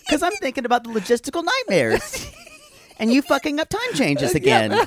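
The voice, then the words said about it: Voice rising higher in pitch. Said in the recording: “my voice is getting higher and higher”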